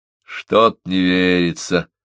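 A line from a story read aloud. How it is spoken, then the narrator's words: Grunted. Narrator (Russian): буркнул Маклеод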